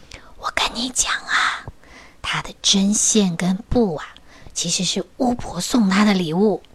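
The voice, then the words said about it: Hushed, quiet whispering voice. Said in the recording (Chinese): “小小声的说”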